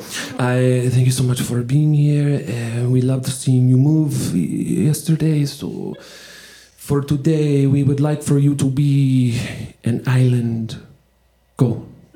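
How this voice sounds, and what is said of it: Poor put-on French accent. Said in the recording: “my French accent is horrible, but I'm determined”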